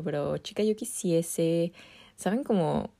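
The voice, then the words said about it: Put-on accent, admittedly done poorly. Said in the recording (Spanish): “ni siquiera estoy haciendo bien el acento”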